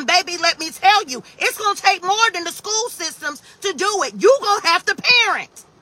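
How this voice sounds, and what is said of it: Yelling. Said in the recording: “Sorry, I'm yelling.”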